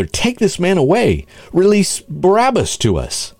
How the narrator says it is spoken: Then they all cried out together

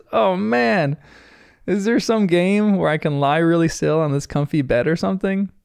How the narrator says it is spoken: Bandit groans and says

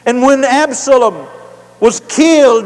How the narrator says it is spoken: David cried

